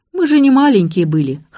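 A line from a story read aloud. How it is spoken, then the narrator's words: Snorting. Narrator (Russian): хмыкнул Сергей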